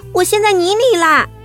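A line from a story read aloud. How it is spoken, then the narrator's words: Loud cry for help. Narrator (Chinese): 黛西大声呼救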